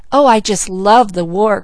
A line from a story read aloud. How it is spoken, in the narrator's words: cried Malcolm